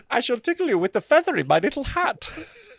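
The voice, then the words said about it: Put-on German accent. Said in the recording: “Germany's such a non-sexy accent.”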